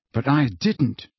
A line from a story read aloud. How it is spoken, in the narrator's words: muttered Harry